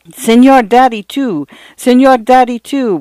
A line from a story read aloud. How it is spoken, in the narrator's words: would come Paula's protesting wail, 20 desperate squirming inches from the telephone